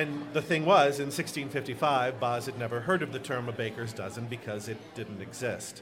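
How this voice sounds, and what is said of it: Usual voice. Nothing is said of it.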